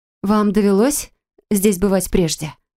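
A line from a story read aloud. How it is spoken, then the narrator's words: Plain. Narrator (Russian): спросила я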